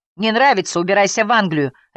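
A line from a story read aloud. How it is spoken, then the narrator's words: Harsh bark. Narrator (Russian): рявкнул другой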